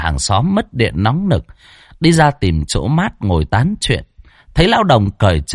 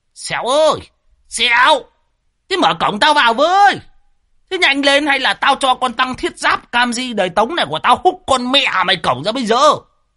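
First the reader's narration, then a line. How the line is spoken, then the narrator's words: Old man bellowing. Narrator (Vietnamese): Lão Đồng chõ mõm vào mà gào lên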